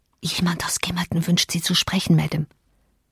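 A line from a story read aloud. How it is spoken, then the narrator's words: Whispered. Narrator (German): ich erschien mir töricht und feige, und so flüsterte ich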